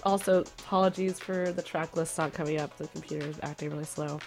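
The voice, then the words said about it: Voice sounds sick and congested. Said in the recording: “Sorry for my voice. I am struggling with a cold right now.”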